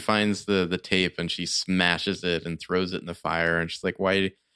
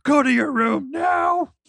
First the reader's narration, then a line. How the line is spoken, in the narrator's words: screams at Aiden